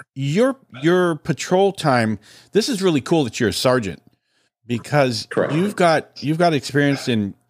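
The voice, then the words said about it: Deep, congested voice. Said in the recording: “I got a cold about almost 2 weeks ago ... it just lingers ... my radio voice that you hear right now is it's just because of the cold ... clearing the throat”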